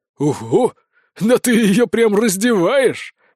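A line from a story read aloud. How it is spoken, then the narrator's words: Chuckling. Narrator (Russian): хохотнул сержант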